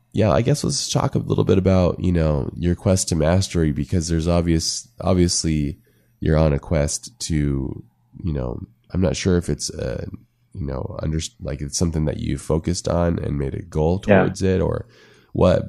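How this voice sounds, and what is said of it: Deep, sick-sounding voice. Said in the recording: “I've had a really gnarly cold that I'm trying to get over ... my very white voice, my deep voice.”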